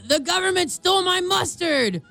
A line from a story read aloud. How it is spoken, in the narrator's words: a guy yelled